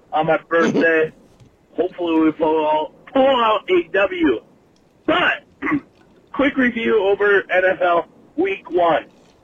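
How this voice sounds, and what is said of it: Hoarse, losing voice from cold. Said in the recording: “I'm kind of losing my voice. Got kind of a cold going on.”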